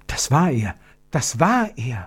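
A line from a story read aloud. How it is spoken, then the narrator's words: Whisper. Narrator (German): flüsterte Gertrud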